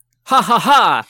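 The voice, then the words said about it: Imitated distinctive character laugh. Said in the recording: “do an impression of Mako's very distinctive laugh”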